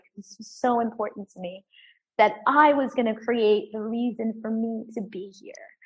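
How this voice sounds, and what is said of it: Emotional, strained voice. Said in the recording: “I'm getting emotional about it”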